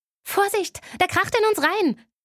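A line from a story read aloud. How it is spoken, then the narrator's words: Shouting while ducking. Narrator (German): schrie ich und duckte mich hinter den Beifahrersitz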